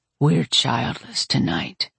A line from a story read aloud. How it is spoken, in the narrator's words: he murmured into my ear